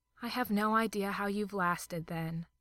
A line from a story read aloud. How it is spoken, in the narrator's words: sighed fondly